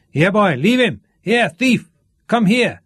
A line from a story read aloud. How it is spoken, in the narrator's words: shout